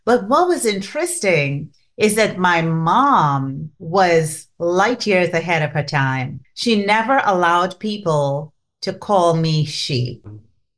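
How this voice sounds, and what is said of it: Trinidadian accent. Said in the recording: “I grew up in Trinidad and Tobago, and you could tell from the accent”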